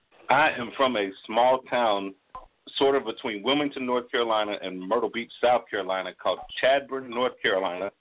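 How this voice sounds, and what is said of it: Southern US North Carolina accent. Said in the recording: “you got a beautiful accent ... my accent is somewhere between redneck and Ebonics”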